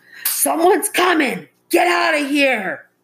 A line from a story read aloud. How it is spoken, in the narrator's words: the man in the water yelled